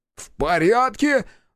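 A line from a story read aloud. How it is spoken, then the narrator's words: Yelling. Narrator (Russian): завопил барон Краевский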